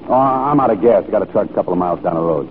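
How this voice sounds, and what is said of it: American accent. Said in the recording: “I thought you were American. I spent many years in your country, and I'm familiar with your accent.”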